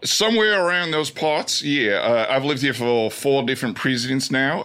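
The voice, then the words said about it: Australian accent. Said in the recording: “why do you have this accent? ... Why do you talk like this? ... both of my parents had Australian accents, so around the house, we spoke an Australian accent.”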